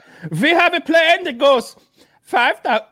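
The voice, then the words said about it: Put-on Russian accent, not convincing. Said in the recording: “Why am I using that accent? ... a Russian accent. Yeah, I'm not good at the Russian anymore”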